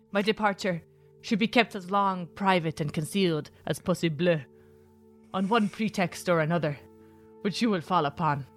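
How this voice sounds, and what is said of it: Reading while shifting through many accents. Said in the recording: “So that was an accent journey. ... That was like 9 accents. My skills are growing. I can multi-accent.”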